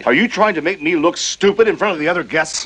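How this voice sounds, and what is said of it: Shouting angrily. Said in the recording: “There's no need to shout.”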